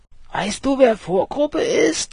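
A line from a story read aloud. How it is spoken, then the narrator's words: Shouted over loud noise. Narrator (German): schrie Ralf bei 210 Stundenkilometer über ein brüllendes Radio und den surrenden Motor hinweg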